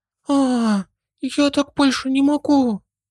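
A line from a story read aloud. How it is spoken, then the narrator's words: Sudden moan. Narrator (Russian): Внезапно простонала Арис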